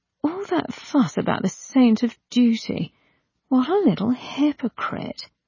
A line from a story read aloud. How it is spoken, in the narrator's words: said Ianthe, and she murmured to herself